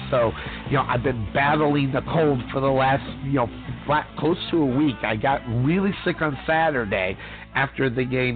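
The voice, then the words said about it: Choked-up, lower-pitched voice. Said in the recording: “my voice is a little bit kind of choked up. And I'm talking a little bit lower here so I can make sure I can get the words out without my voice cracking”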